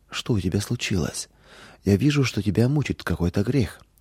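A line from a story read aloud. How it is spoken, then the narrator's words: Gentle motherly question. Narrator (Russian): мама мягко спросила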